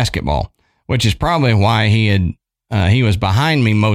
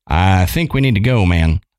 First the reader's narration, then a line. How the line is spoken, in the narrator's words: said in a shaky voice